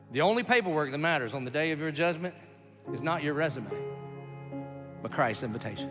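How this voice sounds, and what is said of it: Rural Southern US accent. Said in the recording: “you hear my accent ... it sounds like I'm describing what the tornado sounded like at the trailer park”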